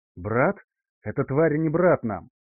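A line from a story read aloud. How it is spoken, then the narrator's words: Angry hiss. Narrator (Russian): зло прошипел гроссмейстер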